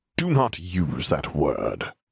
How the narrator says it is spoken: Snape spat

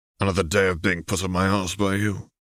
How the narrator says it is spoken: Arcturus grumbled amusedly

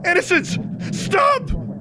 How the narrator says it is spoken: Amplifying the pain in her skull, kept screaming

